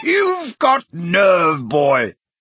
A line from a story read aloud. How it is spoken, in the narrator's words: he boomed